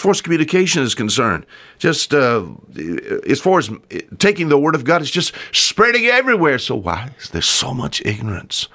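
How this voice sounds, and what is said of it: Southern American country accent. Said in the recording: “I'm just an old southern country hick raised here on the water... I say words a little different”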